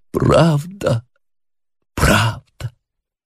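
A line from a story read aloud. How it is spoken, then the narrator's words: Mournful groaning voice. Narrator (Russian): Стенание изнеслось из уст его, скорбным голосом произнес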